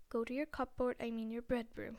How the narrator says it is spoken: he wheezed at Harry

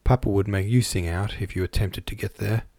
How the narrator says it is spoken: he answered

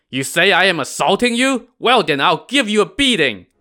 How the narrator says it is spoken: Niu Er shouted

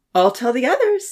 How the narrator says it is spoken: Santa offered cheerfully

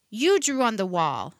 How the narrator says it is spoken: she shouted

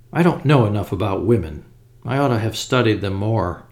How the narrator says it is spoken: said Sir Eustace sadly

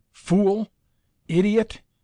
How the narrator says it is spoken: exclaimed

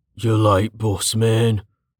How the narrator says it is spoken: said, an old man with a goat-like beard and a slurred accent

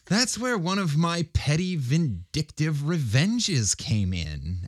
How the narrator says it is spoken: added Laura with an unrepentant chuckle

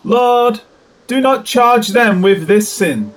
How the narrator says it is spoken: cried out with a loud voice

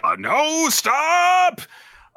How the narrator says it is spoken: Kafka can only just yell

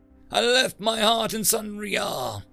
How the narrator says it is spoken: he called out in English

